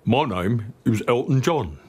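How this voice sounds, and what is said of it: Imitates another person's voice. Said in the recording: “for your Michael Caine impression.”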